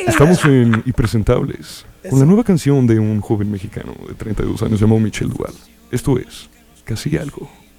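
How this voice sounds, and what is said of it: Radio announcer voice. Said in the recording (Spanish): “Con voz de locutor de radio.”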